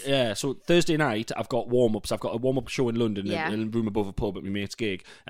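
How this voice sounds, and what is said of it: Northeast English accent. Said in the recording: “my accent still works in the South ... I haven't done a gig outside the Northeast”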